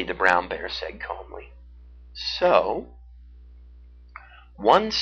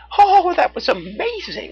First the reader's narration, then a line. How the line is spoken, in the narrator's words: she exclaimed